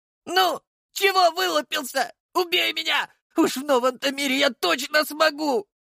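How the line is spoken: Angry boy's shout. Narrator (Russian): Зло выкрикнул пацаненок

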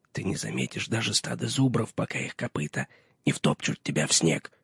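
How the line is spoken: Whisper. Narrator (Russian): шепнул Пип

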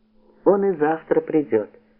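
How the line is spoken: Laughing. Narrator (Russian): сказала Ольга, смеясь

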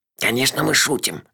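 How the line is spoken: Whispered. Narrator (Russian): шепнул ей Мелифара

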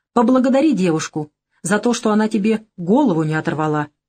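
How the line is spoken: Snorting, wry. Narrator (Russian): хмыкнул Савелий

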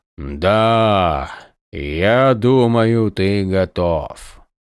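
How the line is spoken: Solemn voice. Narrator (Russian): торжественным голосом сказал

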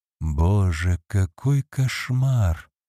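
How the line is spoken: Whispered. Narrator (Russian): прошептал Роберт

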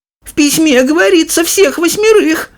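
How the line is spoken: Shouting old woman. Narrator (Russian): закричала бабушка Джозефина

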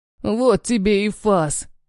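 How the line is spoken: Hoarse. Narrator (Russian): хриплю

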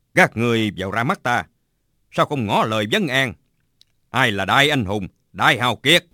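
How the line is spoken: Shouting. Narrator (Vietnamese): Bạch Tự Tại quát lên

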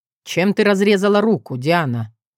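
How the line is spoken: Sweet grumbling. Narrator (Russian): Максимус мило ворчал

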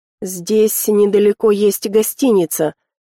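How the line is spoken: Quiet hoarse voice. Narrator (Russian): сказал Тиан негромко и хрипло

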